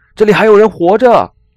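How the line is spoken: Shout. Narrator (Chinese): 格雷格大喊

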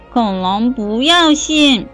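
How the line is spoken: Disappointed shout. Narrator (Chinese): 阿瑟失望的喊了一声

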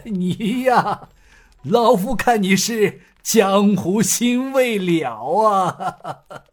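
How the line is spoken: Laughing. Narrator (Chinese): 郑门主笑道

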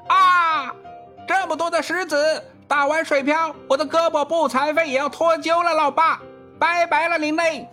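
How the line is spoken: Called out. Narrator (Chinese): 儿子叫道

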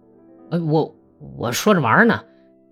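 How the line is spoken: Resentful stammering. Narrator (Chinese): 达维德卡……恨恨地结结巴巴地说道

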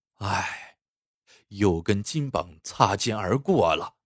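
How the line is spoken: Inner long sigh. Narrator (Chinese): 潘矿是又惊又喜，但与此同时，他也在心里长叹一声

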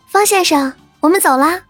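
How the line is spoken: Calling out while walking. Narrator (Chinese): 边走还边对台阶上的方正清喊道

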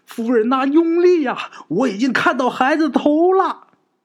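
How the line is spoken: Smiling shout. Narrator (Chinese): 稳婆面带笑容啊，就喊着

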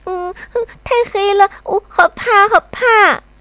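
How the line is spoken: Crying little monkey. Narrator (Chinese): 小猴淘淘会拉着猴妈妈的手哭

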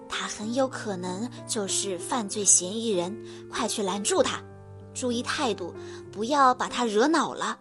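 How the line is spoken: Low voice. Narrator (Chinese): 黑猫警长低声对白鸽侦探说

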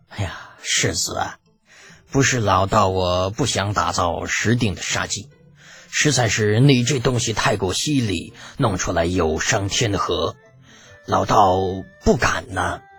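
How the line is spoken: Bitter smile. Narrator (Chinese): 袁天罡苦涩一笑

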